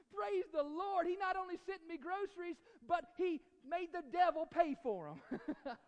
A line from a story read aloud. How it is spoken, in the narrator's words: the lady started jumping, shouting